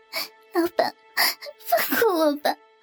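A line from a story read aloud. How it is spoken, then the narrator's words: Crying, pleading. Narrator (Chinese): 阿霞只好哭着说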